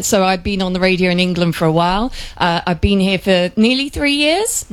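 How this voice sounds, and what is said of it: British accent. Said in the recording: “does come with a bit of a British accent.”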